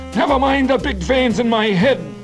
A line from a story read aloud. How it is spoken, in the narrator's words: Garvey shouted